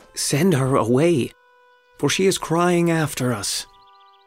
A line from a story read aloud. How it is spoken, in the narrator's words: his disciples came and begged him